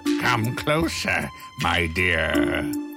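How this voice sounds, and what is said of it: Wolf putting on a grandma voice. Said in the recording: “said the wolf in his fake grandma voice.”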